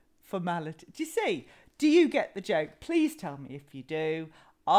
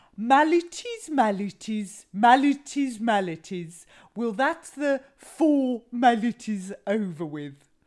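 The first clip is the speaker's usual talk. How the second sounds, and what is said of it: Funny put-on accent for joke. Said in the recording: “I'll do the funny accent.”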